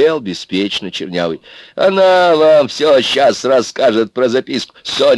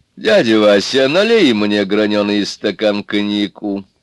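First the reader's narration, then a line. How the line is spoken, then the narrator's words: Tired, petulant. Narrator (Russian): сказал он устало и капризно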